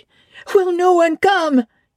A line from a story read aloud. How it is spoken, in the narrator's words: it cried